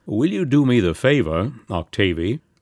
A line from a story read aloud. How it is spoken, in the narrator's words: requested the judge in the courteous tone which he never abandoned